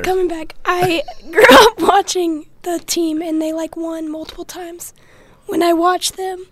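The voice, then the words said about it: Hoarse, strained voice. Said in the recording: “my voice is gone. ... You definitely cheered a lot this weekend.”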